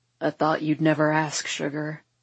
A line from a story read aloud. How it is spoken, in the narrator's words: he grunts